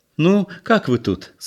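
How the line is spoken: Cheerful question. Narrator (Russian): спросила она весело

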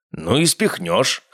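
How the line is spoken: Snorting grunt. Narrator (Russian): хмыкнул

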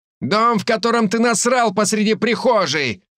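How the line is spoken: Shout. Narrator (Russian): кто-то крикнул ему

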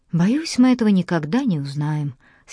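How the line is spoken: Sad sigh. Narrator (Russian): Сьюзен грустно вздохнула

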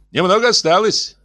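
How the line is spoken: Cheerful. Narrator (Russian): весело сообщил он

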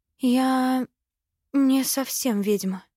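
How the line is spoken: Sighing. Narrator (Russian): вздохнула

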